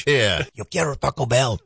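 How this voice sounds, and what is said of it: Imitates another person's voice. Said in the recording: “I always pretend I'm doing a Cheech accent.”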